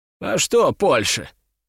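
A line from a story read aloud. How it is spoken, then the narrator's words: Scoffing snort. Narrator (Russian): хмыкнул Стрешнев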